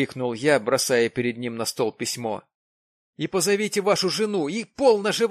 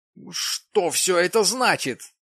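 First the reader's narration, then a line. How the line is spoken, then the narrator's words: Exclamation. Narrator (Russian): воскликнул Джим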